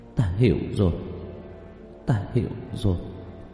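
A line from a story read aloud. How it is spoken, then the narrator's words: Muttered. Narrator (Vietnamese): Lý Thu Nga lẩm bẩm nói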